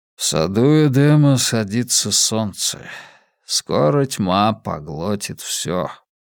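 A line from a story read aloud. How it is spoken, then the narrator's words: Weary. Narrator (Russian): устало ответил Скотт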